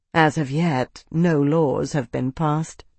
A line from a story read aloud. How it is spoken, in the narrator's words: she said, her voice dry